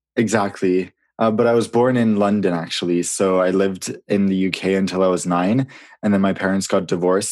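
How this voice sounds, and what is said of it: American accent. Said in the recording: “where did you get that American accent from?”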